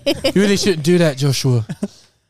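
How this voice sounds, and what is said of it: Put-on British accent. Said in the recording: “The Holy Spirit talks to you in a British accent.”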